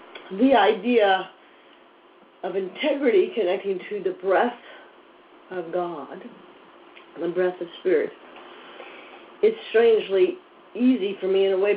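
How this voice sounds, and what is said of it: Weak, strained voice. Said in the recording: “Wow, that's an interesting voice, isn't it? ... my little voice ... Eventually it will come back.”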